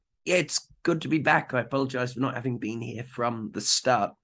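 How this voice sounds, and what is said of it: Hoarse, partly lost voice. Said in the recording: “my voice is still slightly gone ... slightly difficult to understand at times ... this voice has been gone for the better part of a week ... chest infection”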